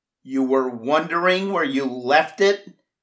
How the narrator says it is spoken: I yelled through the closed window

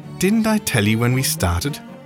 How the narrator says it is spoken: cried Sherlock Holmes with a laugh

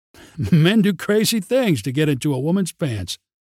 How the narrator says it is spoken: mocked in derision

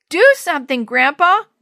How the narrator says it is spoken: Willie shouted

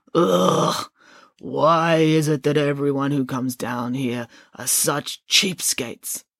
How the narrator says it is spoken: The boatman groaned

